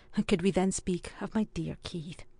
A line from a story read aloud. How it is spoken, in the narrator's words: added with a faint sigh